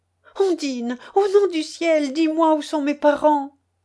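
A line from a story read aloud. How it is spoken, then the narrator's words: Crying out while weeping. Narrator (French): s'écria Bertalda en pleurant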